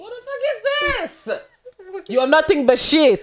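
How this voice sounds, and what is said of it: Poor attempt at Nigerian accent. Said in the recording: “That was horrible ... I can't do a Nollywood accent.”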